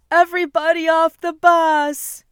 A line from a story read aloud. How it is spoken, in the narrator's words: the bus driver was yelling